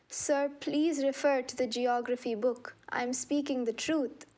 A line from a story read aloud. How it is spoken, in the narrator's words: when he was crying in pain, he said in a very appealing tone